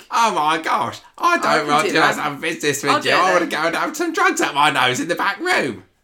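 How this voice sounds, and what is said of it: Imitates another person's voice, deliberately poor. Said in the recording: “We're not doing our very best Rufus accents here”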